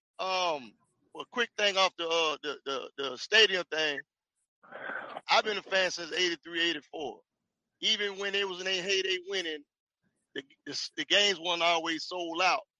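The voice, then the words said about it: Southern Atlanta accent. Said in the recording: “Nobody don't sound like you, man... sound like the Black Billy Ray Cyrus... my Atlanta accent... that sounds like old Mississippi, old Jackson... it's ATL”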